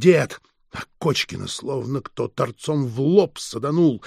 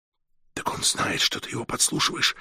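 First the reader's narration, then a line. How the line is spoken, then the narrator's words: Whispered question. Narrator (Russian): шепотом спросил Меркурий Фролыч у Володи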